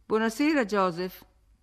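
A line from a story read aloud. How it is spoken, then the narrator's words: Cold. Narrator (Italian): dissi freddamente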